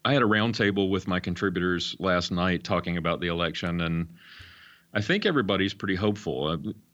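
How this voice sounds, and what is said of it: Voice rough from illness. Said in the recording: “Excuse my voice. I got a little bit of a cold”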